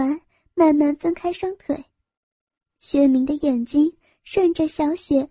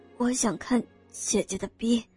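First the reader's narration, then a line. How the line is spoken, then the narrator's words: Shy quiet voice. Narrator (Chinese): 薛明只好红着脸小声说道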